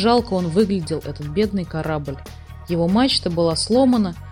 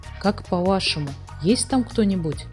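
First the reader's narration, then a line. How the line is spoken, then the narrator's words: Whispered question. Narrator (Russian): шепотом спросила Фрекин Снорк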